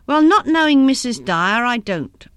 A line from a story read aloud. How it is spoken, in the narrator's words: answered Gus testily